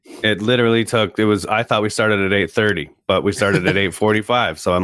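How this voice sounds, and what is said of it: Usual voice. Nothing is said of it.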